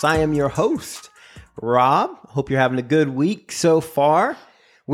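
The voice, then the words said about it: Put-on radio announcer voice. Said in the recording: “my radio voice”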